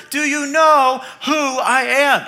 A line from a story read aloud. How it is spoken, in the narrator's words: he yells even louder